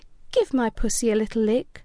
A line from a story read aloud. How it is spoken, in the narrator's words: she purred